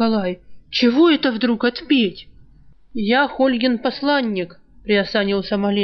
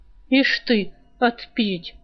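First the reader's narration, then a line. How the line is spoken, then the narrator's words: Muttering. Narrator (Russian): продолжал бормотать Калай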